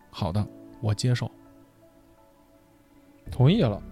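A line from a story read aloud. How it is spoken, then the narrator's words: Flat, indifferent. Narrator (Chinese): 云天明淡淡的说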